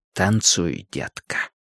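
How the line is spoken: Whispered. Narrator (Russian): шепнул Линч

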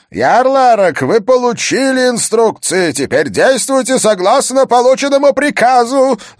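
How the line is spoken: Yelling. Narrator (Russian): заорал он

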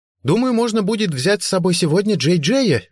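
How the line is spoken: Cheerful ringing voice. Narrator (Russian): весело и звонко проговорила Бренда

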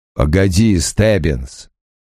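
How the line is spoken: Growl. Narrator (Russian): прорычал Крэмер

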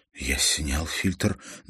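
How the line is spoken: Explained in trembling voice. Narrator (Russian): дрожащим голосом пояснил Юн

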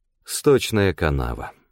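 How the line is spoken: Sad sigh. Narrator (Russian): Данте печально вздохнул

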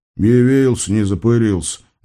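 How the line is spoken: Grumbling lion. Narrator (Russian): буркнул лев

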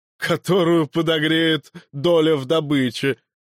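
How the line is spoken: Loud laughter. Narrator (Russian): расхохотался Креонт

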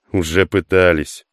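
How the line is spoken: Amused grunt. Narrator (Russian): хмыкнул Хук

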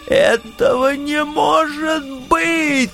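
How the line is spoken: Shrill interrupting falsetto squeal. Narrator (Russian): тонким фальцетом завизжал пан Юлий, пытаясь меня перебить

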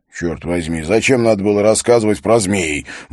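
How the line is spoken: Mutter. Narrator (Russian): буркнул Харри

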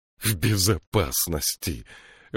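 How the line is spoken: Shrill laugh. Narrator (Russian): Варшева пронзительно рассмеялась

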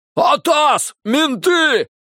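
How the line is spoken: Shouting. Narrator (Russian): крикнул кто-то

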